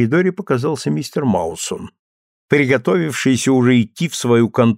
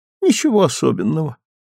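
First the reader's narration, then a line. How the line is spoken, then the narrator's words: Exhausted tone. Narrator (Russian): измученным тоном сказала миссис Маусон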